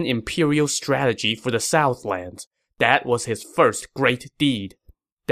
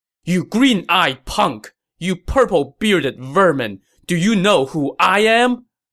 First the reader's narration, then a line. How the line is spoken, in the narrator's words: Lu Meng shouted